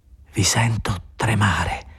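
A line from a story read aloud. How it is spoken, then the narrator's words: Quiet, indefinable accent. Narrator (Italian): diceva piano, con un accento indefinibile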